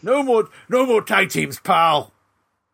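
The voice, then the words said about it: Imitates another person's voice. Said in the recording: “Vince McMahon was like ... do that impression again”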